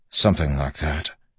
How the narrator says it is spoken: Wax mumbled

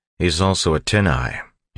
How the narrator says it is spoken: he said in a normal voice

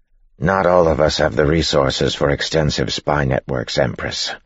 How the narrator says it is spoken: Yeoman said flatly

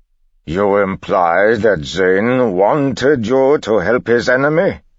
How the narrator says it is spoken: Kanpar said

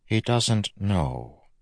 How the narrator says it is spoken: Vendel said softly

